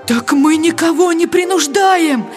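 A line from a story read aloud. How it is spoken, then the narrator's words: Pleading. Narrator (Russian): взмолился голос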